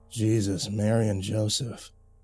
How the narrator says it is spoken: Dalton mumbled absently, like unaware he was even doing so

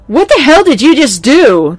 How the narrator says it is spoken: the owner shouted

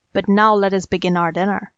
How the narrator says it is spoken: growled the savage beast

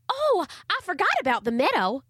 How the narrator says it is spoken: exclaimed Charlie Ray

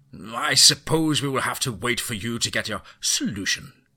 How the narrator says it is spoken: he spat

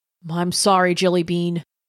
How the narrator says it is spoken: he said, his voice thick

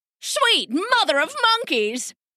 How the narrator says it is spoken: the king cried

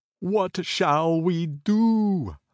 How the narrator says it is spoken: cried to one another in consternation

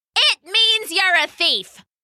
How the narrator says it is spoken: someone shouted back

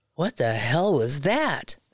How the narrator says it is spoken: they both exclaimed

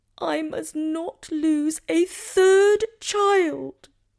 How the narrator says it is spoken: Guinevere cried and begged him not to go, pleading

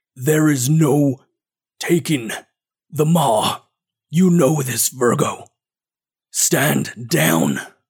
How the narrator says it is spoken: he growls out

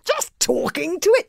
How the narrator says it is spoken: gasped Fishlegs in astonishment

